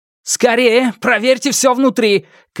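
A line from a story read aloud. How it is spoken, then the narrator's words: Shout. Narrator (Russian): крикнул он остальным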